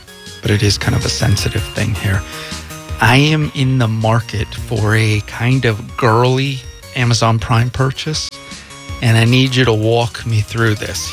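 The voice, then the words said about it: Whispering. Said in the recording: “I'm whispering,”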